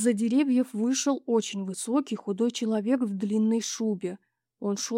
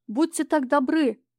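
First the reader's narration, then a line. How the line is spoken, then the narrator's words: Calling out after someone. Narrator (Russian): крикнул ему вдогонку Сережа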